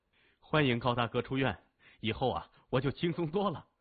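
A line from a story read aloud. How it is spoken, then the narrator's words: Laughing, cheerful. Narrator (Chinese): 他笑着说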